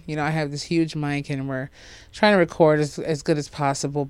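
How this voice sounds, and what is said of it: Congested, sniffly, recovering voice. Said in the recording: “I'm still going through trying to get my normal voice back. ... My voice is starting to come back and forth. My sniffles are here. You probably can hear them.”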